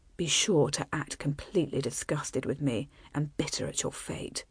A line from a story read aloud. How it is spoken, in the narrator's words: he said softly